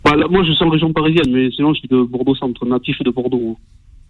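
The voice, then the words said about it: Slight southwestern French accent. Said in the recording (French): “petit accent. Un petit accent du sud-ouest. ... Sud-ouest, un peu mélangé. ... Bordeaux et Marseille.”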